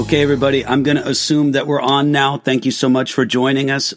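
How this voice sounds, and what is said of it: Voice not quite right, recovering. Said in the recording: “As you can tell right off, my voice isn't quite right... It's improving... my voice is getting okay”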